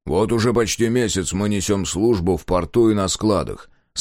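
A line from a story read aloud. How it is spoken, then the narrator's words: Plain. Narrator (Russian): сказал он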